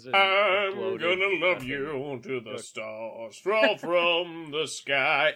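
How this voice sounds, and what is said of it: Imitates another person's singing voice. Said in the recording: “that impression of Jim Morrison”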